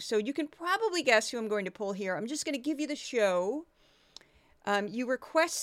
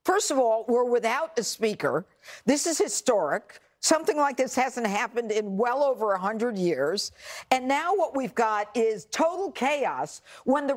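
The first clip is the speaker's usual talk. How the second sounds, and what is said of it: Very loud female pundit impression. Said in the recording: “impersonate this person... She's decibels of unknown proportions. Very loud human being. Small, but loud.”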